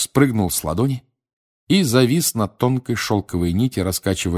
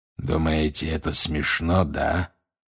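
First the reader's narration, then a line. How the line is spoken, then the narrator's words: Growling. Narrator (Russian): прорычал он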